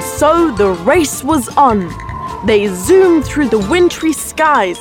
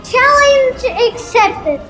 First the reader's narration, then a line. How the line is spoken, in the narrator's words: shouted Frosty